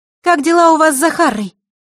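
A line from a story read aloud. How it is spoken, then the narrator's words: Loud question. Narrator (Russian): громко спросила она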